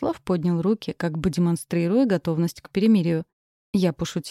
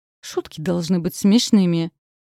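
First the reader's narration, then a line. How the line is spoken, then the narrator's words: Snapping retort. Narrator (Russian): огрызнулась я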